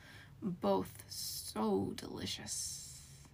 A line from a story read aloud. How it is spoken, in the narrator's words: it hissed